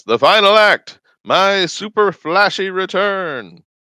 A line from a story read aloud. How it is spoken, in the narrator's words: he shouts